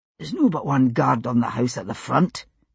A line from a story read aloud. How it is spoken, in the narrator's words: he said, moving close enough to whisper into William's ear